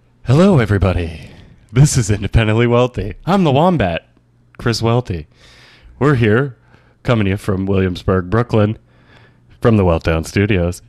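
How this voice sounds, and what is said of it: Smooth public-radio announcer voice. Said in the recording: “I like the NPR voice. ... I like when you do the NPR voice”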